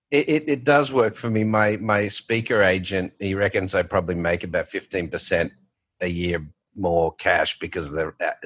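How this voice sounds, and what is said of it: Australian accent. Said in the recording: “still has his Australian accent ... you still have that accent”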